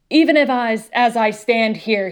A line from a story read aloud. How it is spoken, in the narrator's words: he bellowed